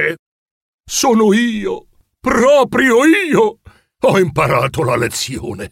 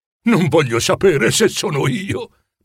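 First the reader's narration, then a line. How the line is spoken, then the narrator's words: Grave murmur. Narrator (Italian): mormorò con tono grave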